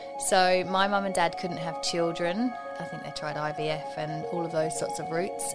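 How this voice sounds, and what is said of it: English accent. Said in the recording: “you've got an accent. Where were you born? ... I was born in England”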